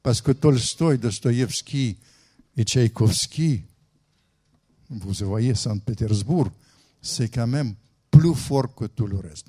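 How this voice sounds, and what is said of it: Speaker's own foreign accent in French. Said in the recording (French): “avec mon accent”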